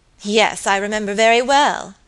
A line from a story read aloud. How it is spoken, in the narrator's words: answered Lucy Audley, with a bitter laugh